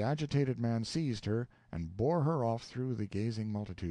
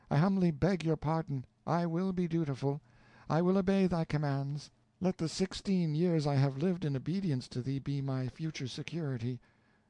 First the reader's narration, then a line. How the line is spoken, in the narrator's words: she exclaimed